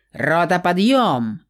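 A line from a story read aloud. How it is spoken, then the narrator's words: Loud bark right in ear. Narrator (Russian): гаркнула в самое ухо Фениксу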